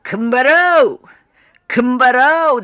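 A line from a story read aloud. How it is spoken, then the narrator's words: Shouting. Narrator (Kazakh): деп айқайлайды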